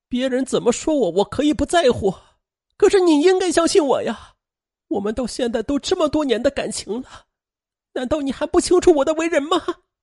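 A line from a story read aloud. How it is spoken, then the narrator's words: Heartbroken, crying. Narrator (Chinese): 他也感到心在滴血，他哭着说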